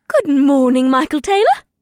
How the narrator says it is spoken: Ipsith said brightly

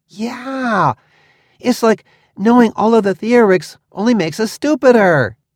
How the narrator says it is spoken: he laughed excitedly

